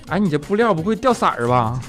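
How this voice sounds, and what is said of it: Imitated regional accent. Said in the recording (Chinese): “你听这口音，掉色儿啊！”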